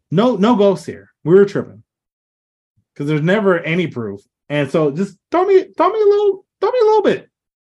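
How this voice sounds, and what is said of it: Voice pitched unusually high. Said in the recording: “I don't know why my voice is going up so high”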